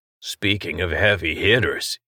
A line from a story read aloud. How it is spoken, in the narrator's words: he muttered